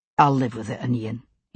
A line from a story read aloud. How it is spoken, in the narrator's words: he said softly